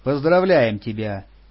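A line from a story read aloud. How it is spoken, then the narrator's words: Dry tone. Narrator (Russian): сухо произнесла Лиля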